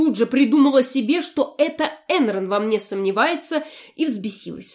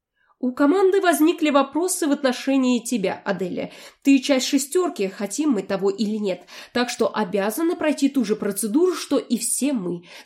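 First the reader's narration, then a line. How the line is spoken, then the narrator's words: Calm man explaining. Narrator (Russian): спокойно объяснил мне мужчина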